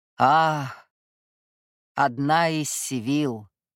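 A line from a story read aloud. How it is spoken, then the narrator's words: Cold, smiling. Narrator (Russian): холодно улыбнулся ей Руфус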